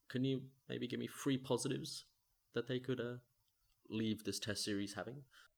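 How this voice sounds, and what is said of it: English-sounding accent. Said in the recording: “I'm happy to not be English, as much as my accent would suggest”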